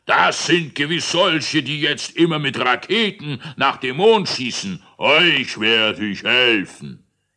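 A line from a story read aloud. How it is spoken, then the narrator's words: Shouting. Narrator (German): schrie er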